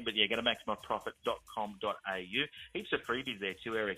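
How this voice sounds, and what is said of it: Australian accent. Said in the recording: “we're in Australia. You know, I've got that on my accent.”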